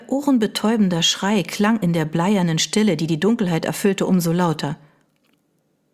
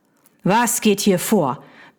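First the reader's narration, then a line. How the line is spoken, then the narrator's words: Barked. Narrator (German): bellte die Stimme seines Cousins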